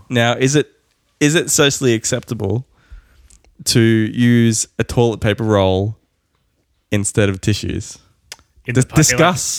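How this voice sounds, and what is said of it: Sick, congested-sounding voice. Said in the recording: “I don't know if you probably hear in my voice. I got sick a couple of days ago.”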